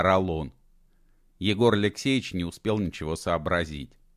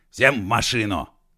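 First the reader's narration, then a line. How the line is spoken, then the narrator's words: Shout. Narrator (Russian): крикнул Егор Алексеевич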